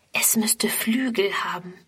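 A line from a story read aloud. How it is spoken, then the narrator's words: Whisper. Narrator (German): flüstert Friedrun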